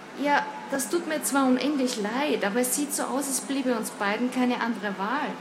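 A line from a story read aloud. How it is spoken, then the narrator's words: Plain. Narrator (German): sagte sie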